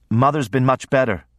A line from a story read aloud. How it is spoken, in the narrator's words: I said